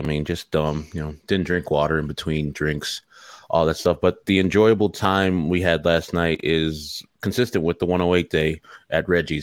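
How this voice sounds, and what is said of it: Slightly hoarse voice. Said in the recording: “you can hear my voice. It's a little hoarse today. It sounds like Harry Firestein.”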